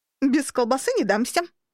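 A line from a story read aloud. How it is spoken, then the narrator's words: Firm declaration, then laughter. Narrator (Russian): твердо заявила и снова рассмеялась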